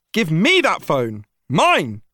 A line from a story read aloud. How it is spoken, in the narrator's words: to yell